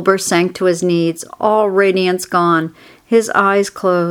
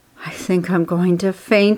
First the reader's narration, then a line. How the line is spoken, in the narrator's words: he whispered to the old sheep